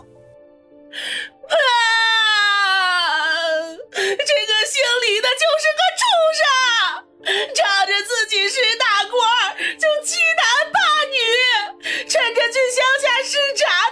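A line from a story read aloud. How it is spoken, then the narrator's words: Sobbing, broken speech, woman. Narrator (Chinese): 那个女人顿时哇的一声哭了起来，断断续续地说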